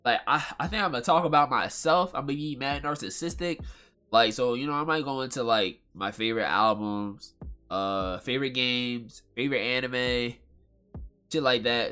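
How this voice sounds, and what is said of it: Nasal, congested voice. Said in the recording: “I sound so nasally right now. That nasally shit gonna be in and out.”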